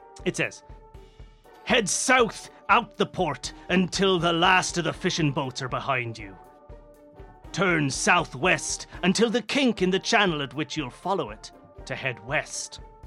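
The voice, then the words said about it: Pirate character voice. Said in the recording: “can you do a pun pirate voice? ... I'll do the pun pirate.”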